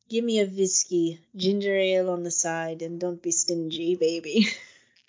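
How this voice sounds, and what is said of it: Poor Swedish accent, Greta Garbo impression. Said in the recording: “I cannot interpret a Swedish accent.”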